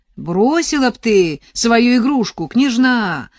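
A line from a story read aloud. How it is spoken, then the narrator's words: Young man shouting from distance. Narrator (Russian): крикнул широкоплечий отрок, стоявший в шагах в десяти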